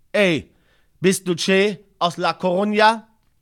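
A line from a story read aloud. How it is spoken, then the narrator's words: Calling out. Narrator (German): rief mich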